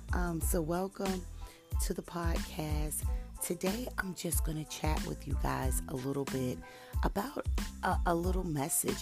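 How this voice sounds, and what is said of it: Voice sounds a little weird. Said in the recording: “You have to excuse my voice... apparently the things that I'm allergic to in the environment are catching up with me... I sound a little weird”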